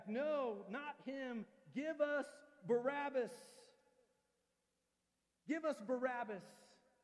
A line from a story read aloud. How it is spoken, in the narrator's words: The crowd shouts back